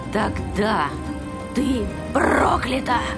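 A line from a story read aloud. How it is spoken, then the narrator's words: Whispering. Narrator (Russian): прошептала сестра Тамра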